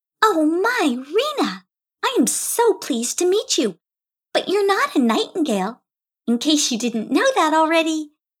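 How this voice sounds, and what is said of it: Playful little character voice. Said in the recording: “in a playful little voice.”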